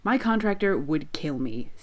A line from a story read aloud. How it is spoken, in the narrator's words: Sid says firmly, even if he's grinning wildly